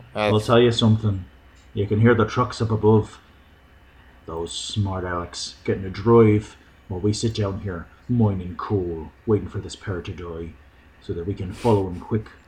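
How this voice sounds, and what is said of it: Good put-on accent. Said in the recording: “Good accent.”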